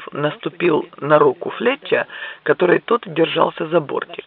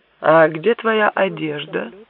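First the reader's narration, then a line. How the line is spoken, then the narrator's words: Plain. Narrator (Russian): спросил Гомес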